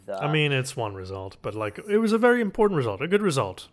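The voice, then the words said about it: Sultry foreign accent. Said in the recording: “that sultry accent of yours”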